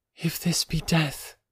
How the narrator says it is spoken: she murmured

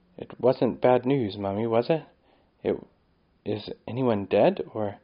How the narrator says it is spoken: whisper

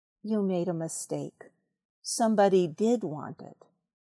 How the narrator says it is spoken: said Pooh solemnly

